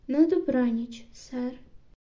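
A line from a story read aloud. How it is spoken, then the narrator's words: Calm. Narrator (Ukrainian): спокійно сказала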